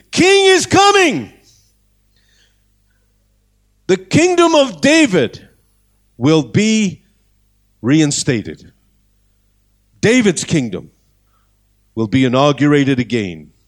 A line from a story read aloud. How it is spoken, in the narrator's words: They are shouting and screaming